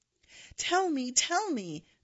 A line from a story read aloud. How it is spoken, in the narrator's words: cried out even louder